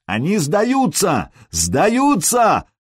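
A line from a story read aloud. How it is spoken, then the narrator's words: Yelling in a foreign language. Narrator (Russian): заорал Сергей по-нурмански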